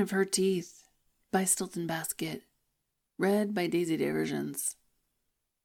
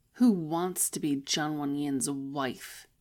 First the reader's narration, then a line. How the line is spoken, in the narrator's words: Jinzi Xuan grumbled